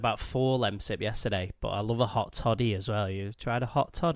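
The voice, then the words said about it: Congested, very nasal voice. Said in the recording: “I'm just getting over a cold, so you can probably hear my... my voice is nasal as it is, but it's even more nasal today”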